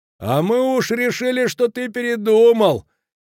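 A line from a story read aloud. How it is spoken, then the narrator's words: Laughing shout. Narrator (Russian): крикнул со смехом Кранер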